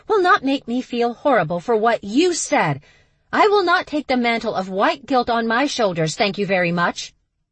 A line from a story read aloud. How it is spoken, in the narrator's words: Stevie yelled from the tree